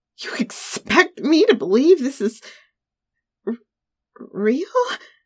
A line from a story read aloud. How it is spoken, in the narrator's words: I stammered once I realized my error